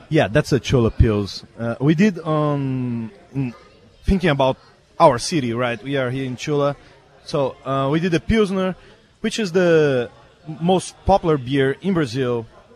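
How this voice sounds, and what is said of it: Brazilian-accented English. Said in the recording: “With that accent, I had a feeling he was not from Chula Vista. ... I am from Brazil.”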